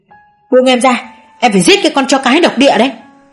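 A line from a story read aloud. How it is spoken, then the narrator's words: Screaming. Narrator (Vietnamese): Chú Đại gào lên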